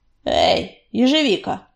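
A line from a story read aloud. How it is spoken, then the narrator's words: Grumbling. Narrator (Russian): проворчал он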